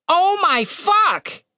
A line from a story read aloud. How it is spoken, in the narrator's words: He shouted